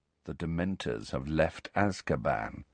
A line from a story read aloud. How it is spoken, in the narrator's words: said Malfoy quietly